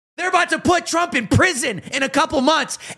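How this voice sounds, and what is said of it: Loud, angry shouting. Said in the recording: “Why do you sound so mad? ... Why are you so loud? Am I loud enough yet?”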